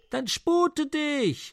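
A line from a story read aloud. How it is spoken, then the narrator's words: Hearty glutton shouting. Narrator (German): schrie der Reisende, welcher noch nicht gesprochen, ein rüstiger Schlemmer und Tellerheld nach seinem Äußern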